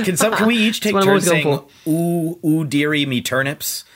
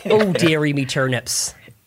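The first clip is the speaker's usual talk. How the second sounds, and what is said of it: Exaggerated pirate-like accent. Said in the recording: “Such a pirate. Okay. It's just a pirate voice.”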